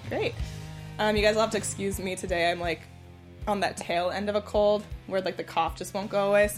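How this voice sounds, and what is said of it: Raspy voice from a cold. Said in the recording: “my voice is very ... raspy”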